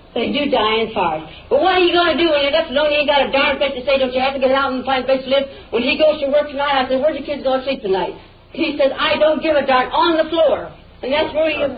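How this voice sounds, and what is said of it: Yelling, raised angry voice. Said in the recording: “you're yelling at me ... I don't see why you're yelling at me”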